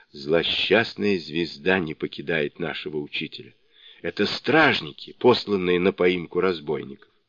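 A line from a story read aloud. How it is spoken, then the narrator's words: Whisper. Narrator (Russian): Суню-кун прошептал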